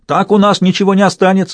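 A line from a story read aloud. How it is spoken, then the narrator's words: Yelling from a tree. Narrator (Russian): завопил Пер со своего дерева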